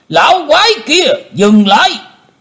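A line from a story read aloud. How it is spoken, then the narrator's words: Thunderous roar. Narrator (Vietnamese): Một giọng quát tở trời gầm phát ra từ miệng của Tử Diễn Côn Luân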